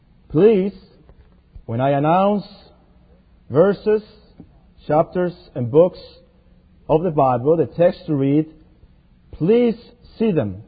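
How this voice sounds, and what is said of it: Mexican accent. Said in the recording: “I do have a Mexican accent.”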